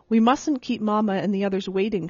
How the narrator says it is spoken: she said

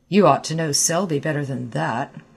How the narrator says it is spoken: growled Clifford behind the door

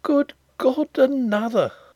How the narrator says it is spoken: he exclaimed faintly

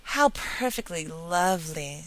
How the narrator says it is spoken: sighed Diana

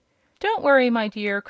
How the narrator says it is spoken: cried Billina with a cluck that was meant for a laugh

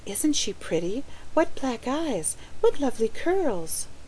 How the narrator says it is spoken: she heard them whisper

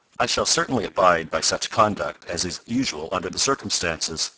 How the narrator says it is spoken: said Professor Beecher more stiffly than before

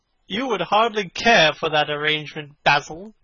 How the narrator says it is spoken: cried Lord Henry, laughing

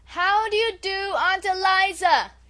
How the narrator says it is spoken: she repeated at the top of her voice

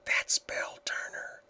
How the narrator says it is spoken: whispered Helen

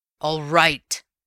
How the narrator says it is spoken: said Raffles savagely

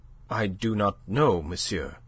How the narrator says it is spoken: she said, her voice unsteady

